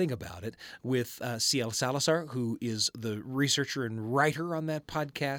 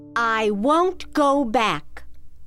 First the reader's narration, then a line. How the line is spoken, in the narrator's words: my teenage grandmother shouted at her father in a voice that Moses must have used when he shouted at Pharaoh